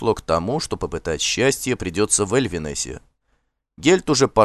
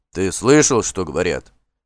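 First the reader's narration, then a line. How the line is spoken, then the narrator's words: Grumbling. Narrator (Russian): ворчал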